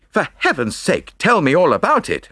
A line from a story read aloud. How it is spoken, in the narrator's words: I cried impatiently